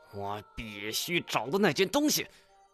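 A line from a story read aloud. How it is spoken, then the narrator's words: Flustered sudden roar. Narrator (Chinese): 太前突然红着脸吼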